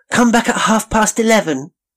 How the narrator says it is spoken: they cried

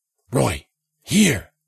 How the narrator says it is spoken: Jensen whispered

